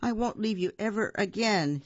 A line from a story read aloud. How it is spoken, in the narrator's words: he said